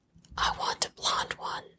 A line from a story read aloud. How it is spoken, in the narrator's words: she whispers